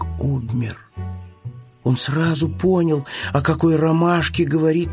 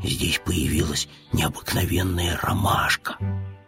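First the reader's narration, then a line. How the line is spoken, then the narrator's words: Bear cub's whisper. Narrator (Russian): шепотом сказал медвежонок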